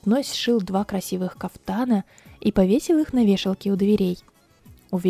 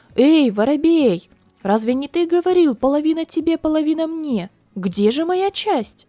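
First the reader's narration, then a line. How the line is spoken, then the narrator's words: Shouting. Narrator (Russian): Красильщик закричал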